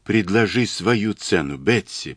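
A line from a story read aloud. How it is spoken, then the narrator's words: Whisper. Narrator (Russian): прошептала Мэри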